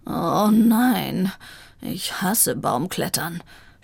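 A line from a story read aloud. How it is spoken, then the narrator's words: Groaning. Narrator (German): stöhnte Vivaldi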